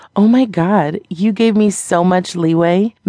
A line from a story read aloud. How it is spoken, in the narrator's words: Meg said, laughing